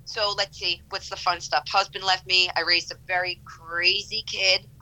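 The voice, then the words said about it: Speaks with a noticeable accent. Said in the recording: “Listen to my lovely accent.”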